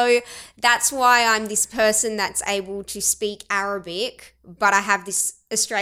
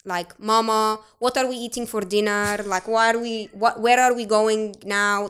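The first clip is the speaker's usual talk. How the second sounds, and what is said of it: Put-on ethnic Arabic-style English accent. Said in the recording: “if I'm speaking English to my mum, I will talk like this ... that's how I would talk, like ethnic”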